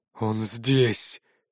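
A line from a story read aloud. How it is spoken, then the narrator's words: Hoarse, eager anticipation. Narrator (Russian): Голос Дерина был хриплым от предвкушения скорой расправы над главным мятежником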